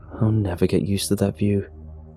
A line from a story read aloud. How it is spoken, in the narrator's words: said with a sigh